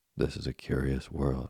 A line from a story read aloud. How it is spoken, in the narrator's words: replied Geppetto calmly